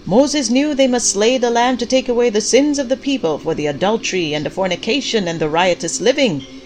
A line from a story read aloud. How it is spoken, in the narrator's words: Pastor Clyde shouted